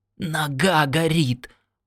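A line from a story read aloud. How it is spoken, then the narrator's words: Groaning. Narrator (Russian): простонал он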